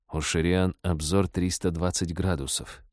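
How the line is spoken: Quiet warning. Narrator (Russian): тихо предупредил Дэн

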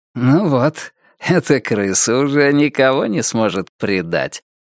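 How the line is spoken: Remark, then laughter. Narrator (Russian): заметил мистер Крупп и засмеялся собственной шутке

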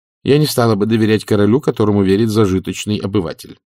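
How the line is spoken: Plain. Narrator (Russian): сказала матушка

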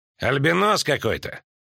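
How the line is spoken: Laughing. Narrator (Russian): хохотнул щуплый темноволосый мужчина

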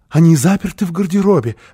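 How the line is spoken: Explaining with nervous happy laugh. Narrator (Russian): объяснила Фрёкинбок и засмеялась испуганно и радостно

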